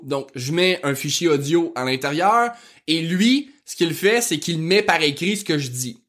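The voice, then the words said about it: Rural Québécois French accent, fast speech. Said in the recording (French): “mon accent de fond de campagne ... Il aime vraiment pas mon accent de fond de campagne ... je parle très vite”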